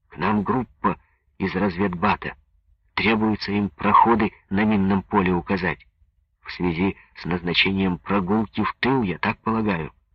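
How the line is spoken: Polite whisper, messenger. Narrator (Russian): припав губами к уху Петухова, вежливо шептал связной

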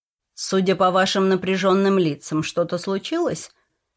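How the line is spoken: Plain question. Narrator (Russian): спросил он

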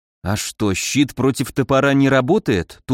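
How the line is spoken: Dazed mumble. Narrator (Russian): тупо пробормотал, растерянно

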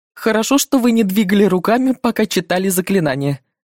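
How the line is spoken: Laughing. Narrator (Russian): рассмеялся Бернетти

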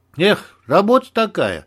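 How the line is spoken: Sighing. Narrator (Russian): вздохнула Клава

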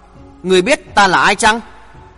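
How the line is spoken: Harsh, clipped question. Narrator (Vietnamese): Chàng gằn giọng hỏi

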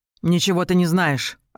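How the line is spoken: Snapping. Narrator (Russian): огрызнулась Рен

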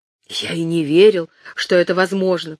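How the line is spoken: Whisper. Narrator (Russian): прошептал он

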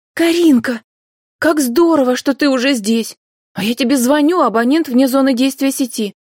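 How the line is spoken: Girl's joyful greeting. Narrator (Russian): радостно приветствовала девушка

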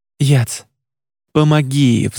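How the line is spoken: Pleading. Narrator (Russian): взмолился Едриэль

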